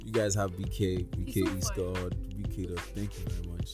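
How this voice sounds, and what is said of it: Vampire-like character voice. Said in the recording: “Talk to us in your normal voice. ... Please don't use vampire voice”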